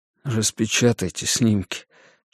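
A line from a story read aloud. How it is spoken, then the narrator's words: Barely audible. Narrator (Russian): чуть слышно проговорил он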